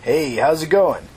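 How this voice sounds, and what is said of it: Friendly voice. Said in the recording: “he asked in a friendly voice”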